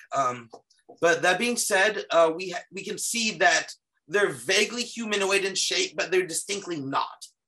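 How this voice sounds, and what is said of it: Strained, failing voice. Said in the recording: “I must be losing my voice from work”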